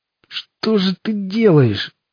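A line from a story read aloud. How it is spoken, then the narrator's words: Dying moan. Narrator (Russian): простонал Боб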